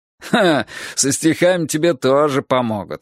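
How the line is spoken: Chuckling. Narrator (Russian): хохотнул Дамилола

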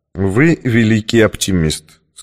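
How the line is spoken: Plain. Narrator (Russian): сказал я

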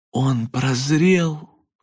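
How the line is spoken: Breathless exclamation. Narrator (Russian): выдохнул Льюис

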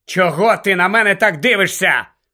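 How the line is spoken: Shouted. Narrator (Ukrainian): крикнув він Герміоні

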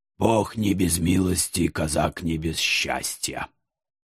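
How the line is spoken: Pained mutter. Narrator (Russian): Болезненно морщись пробормотал Прохор

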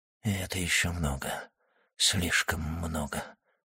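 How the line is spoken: Whisper. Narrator (Russian): прошептал Вильфор

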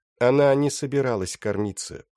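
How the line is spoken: Forced neutral tone. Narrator (Russian): продолжала Белис, стараясь говорить нейтральным тоном

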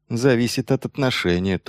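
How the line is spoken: Quiet reply. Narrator (Russian): тоже тихо ответил Майлз

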